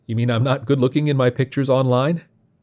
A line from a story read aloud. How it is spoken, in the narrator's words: His chuckle